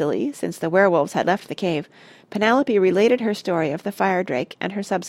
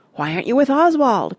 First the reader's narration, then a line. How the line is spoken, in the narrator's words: cried Simon